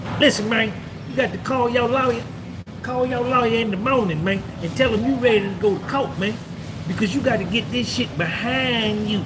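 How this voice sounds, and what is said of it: Southern country accent. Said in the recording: “He was from down south. He talk country.”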